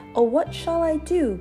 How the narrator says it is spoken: cried Amelia Jane

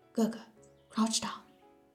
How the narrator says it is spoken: Ho-chan warned in a low voice

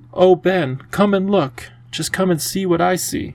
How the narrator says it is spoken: Lindy cried out

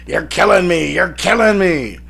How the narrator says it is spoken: Wake shouts

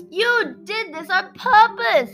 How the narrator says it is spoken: Shamli shrieked at Kripalu

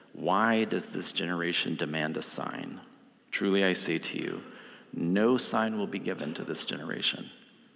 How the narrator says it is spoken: sighing deeply in his spirit, he said

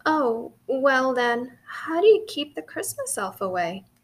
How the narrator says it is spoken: couldn't help laughing

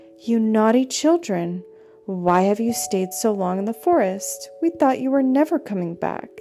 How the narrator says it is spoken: their stepmother she exclaimed

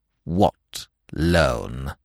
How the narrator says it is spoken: inquired the statue icily

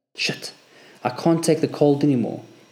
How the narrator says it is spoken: said in a trembling voice

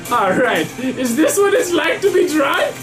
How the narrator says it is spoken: I scream

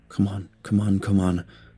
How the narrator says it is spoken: I whispered

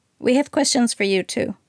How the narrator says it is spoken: Marianne said quickly

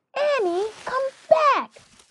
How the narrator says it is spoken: Jack shouted

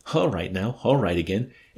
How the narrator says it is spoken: giggling like a crazy little freak

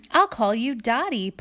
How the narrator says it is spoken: Plum said

